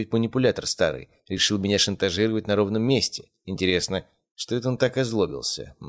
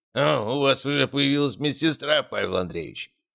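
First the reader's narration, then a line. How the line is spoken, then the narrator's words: Amused grunt. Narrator (Russian): хмыкнул он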